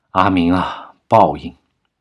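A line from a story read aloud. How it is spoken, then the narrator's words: Grave old man, sighing. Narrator (Chinese): 老爷子面色凝重的听完，长叹了一口气，道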